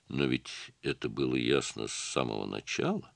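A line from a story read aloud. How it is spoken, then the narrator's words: Calm. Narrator (Russian): спокойно ответил он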